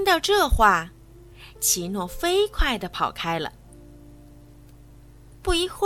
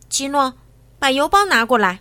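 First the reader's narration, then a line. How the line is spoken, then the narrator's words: Loud. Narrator (Chinese): 也高声说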